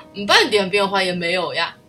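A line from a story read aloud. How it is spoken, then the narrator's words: Laughing. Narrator (Chinese): 胖胖猪笑着说道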